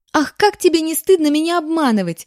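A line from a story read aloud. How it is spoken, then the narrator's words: Little girl exclaiming. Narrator (Russian): воскликнула девчурка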